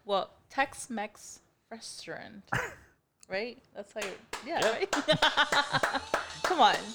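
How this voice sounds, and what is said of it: Non-native English accent. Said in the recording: “I have an accent.”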